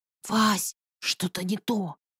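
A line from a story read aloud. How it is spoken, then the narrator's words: Whisper. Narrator (Russian): раздался Машкин шепот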